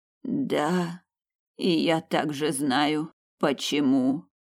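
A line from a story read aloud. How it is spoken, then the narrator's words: Moaning. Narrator (Russian): простонала настоятельница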